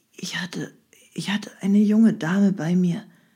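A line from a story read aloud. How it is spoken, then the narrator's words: Weak whisper. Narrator (German): flüsterte er matt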